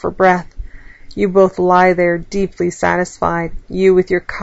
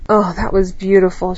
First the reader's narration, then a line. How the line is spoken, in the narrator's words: she sighs